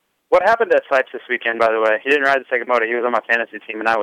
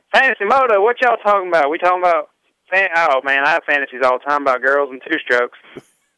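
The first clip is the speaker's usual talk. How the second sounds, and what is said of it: Imitates another person's voice. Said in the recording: “does a very good impression of Ryan Sipes”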